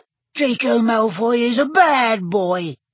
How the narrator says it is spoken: squeaked Dobby angrily

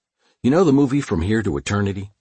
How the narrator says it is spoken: he asked me

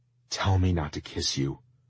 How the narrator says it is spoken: I begged

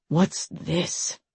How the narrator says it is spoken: Deimos muttered

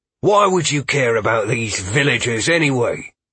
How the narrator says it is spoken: Jenkins spat

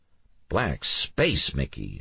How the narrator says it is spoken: Alex muttered

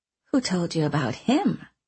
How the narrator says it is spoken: she asked, her voice showing her interest

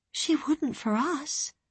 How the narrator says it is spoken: Elaine said quietly

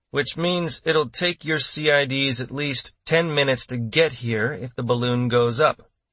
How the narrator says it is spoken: Boomer pointed out grimly

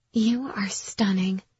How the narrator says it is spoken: Karina whispered

